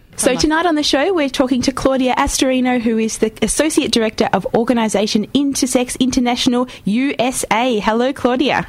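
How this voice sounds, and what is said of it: Excitable, upbeat radio-presenter voice. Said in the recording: “you can hear ... frothing in this ... my excitable radio voice”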